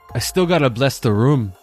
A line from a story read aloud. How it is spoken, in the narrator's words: Kimo answered